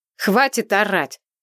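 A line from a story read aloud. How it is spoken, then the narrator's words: Barking. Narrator (Russian): рявкнула я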